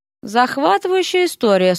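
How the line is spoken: Bored tone. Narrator (Russian): скучным тоном отозвался Эрик

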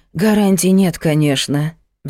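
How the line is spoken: Sighed. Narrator (Russian): вздохнула Магда

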